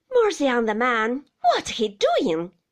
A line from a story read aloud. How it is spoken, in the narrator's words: cried, impatiently